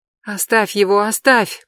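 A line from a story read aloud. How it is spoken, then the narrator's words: Mother's moan. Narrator (Russian): простонала его мать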